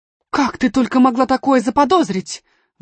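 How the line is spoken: Exclamation. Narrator (Russian): воскликнула она

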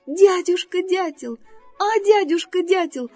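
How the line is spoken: Pleading. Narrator (Russian): взмолился зайка Петя

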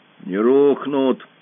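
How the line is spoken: Gloomy. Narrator (Russian): сказал Пашка мрачно

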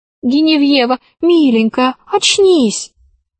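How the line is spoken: Pleading. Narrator (Russian): взмолилась Алиса

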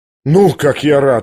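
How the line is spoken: Joyful sigh. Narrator (Russian): радостно вздохнул князь

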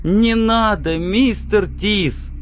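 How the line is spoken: Sobbing young man. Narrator (Russian): Парень зарыдал

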